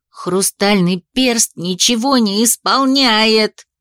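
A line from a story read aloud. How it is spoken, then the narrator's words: Howled. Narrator (Russian): взвыла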